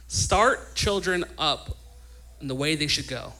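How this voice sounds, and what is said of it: Louder, emphatic delivery. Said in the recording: “I'm going to say it louder.”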